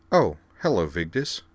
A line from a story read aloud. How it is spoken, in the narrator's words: said Belle Dandy brightly